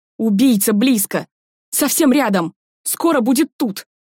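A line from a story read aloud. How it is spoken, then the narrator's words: Dead wailing in unison. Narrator (Russian): Разом завопили мертвецы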